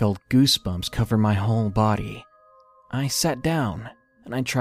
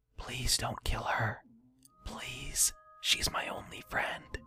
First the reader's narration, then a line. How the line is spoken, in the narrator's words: quietly whispered to no one